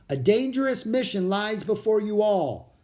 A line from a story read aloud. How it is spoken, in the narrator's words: the man shouted above the wind